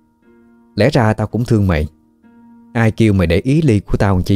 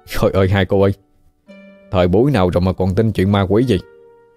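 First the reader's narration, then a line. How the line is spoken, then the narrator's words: Laughing loudly. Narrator (Vietnamese): Hên cười lớn nói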